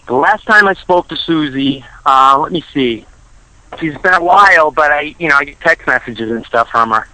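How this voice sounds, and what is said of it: Strong Boston accent. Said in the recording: “I'm calling from Boston, Mass. ... I couldn't tell with that accent.”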